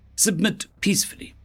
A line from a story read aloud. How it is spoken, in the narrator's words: they pleaded